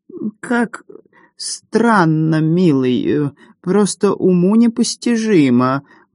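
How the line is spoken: Affected creaky voice. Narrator (Russian): манерно проскрипела Мисси

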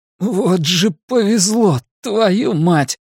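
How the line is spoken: Groaning. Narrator (Russian): Юн застонал и сказал

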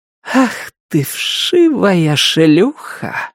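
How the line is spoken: Breathed out. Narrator (Russian): выдохнула она

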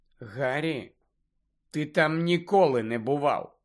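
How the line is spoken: Calm objection. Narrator (Ukrainian): спокійно заперечила Герміона

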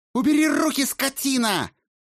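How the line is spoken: Shrieking. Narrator (Russian): завизжала она

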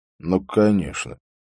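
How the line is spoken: Gruff mutter. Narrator (Russian): буркнул Харри

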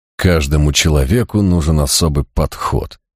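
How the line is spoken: Angry muttering. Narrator (Russian): злобно бормотал я

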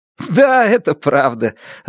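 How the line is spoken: Laughing. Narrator (Russian): рассмеялся Муландер

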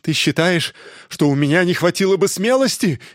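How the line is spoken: Shrill shout. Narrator (Russian): визгливым голосом крикнул он

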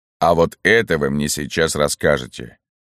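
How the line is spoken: Menacing. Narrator (Russian): грозно сказал Берия

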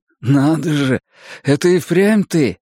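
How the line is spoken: Surprised exclamation. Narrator (Russian): удивленно воскликнул

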